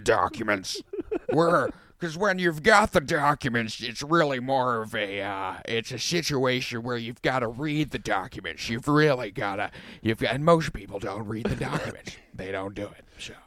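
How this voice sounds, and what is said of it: Imitated voice, pretty good impression. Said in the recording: “That's a pretty good imitation of”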